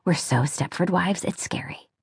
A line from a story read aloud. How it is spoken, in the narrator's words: Julia muttered to Liz